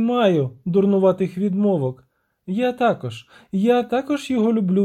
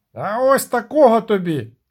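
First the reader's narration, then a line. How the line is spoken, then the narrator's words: Captain shouting back. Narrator (Ukrainian): крикнув у відповідь капітан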